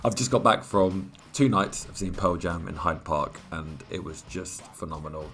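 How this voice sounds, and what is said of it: Croaky, strained voice. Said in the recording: “As you can tell by my voice, it's not good ... it's definitely a lot croakier than before”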